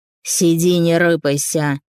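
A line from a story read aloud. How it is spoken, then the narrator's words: Malicious guffaw. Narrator (Russian): Тот, который сидел ближе, злобно заржал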